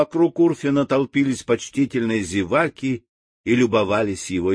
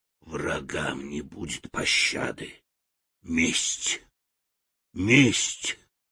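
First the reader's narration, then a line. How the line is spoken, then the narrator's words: Grim whisper through teeth. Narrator (Russian): Урфин мрачно шептал сквозь стиснутые зубы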